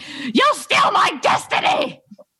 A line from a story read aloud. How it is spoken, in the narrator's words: screaming